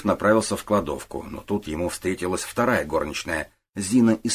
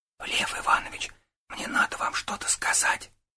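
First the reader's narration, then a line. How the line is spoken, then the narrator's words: Whisper. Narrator (Russian): прошептала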